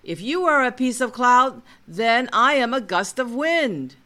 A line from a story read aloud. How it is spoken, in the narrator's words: He then yells